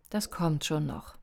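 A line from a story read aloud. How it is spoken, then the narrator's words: Gentle. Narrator (German): sagte sanft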